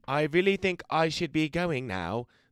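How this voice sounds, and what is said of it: Impression of Bilbo Baggins character. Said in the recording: “That's my impression of Bilbo Baggins”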